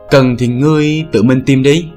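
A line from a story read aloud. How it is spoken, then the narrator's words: Smiling. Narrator (Vietnamese): Bích Dao mỉm cười nói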